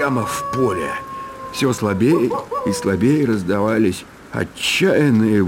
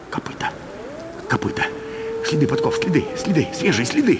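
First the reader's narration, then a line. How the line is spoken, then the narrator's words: Rapid muttering. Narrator (Russian): Забормотал он скороговоркой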